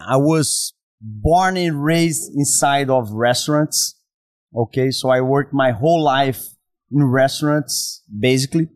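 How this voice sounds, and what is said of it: Brazilian accent. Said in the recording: “As you can listen by my accent, I'm from Brazil.”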